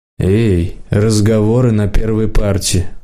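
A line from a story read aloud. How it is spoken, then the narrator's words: Tired. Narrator (Russian): устало сказала химичка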